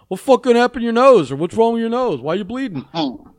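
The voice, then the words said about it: Imitated New York accent. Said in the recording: “his New York accent.”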